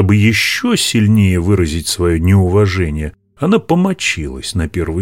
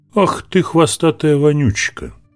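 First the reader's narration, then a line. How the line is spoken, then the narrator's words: Plain. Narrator (Russian): ответил ей Будда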